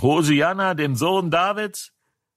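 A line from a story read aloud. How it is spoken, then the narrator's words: Children shouting. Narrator (German): die Kinder, die im Tempel schrien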